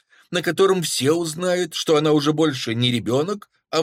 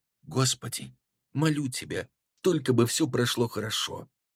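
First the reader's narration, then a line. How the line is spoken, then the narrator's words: Fervent whisper. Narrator (Russian): с жаром прошептала Бэби перед сном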